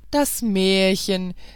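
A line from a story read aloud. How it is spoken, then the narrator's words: Guards laughing, shouting. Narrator (German): riefen die Wächter und lachten aus vollem Hals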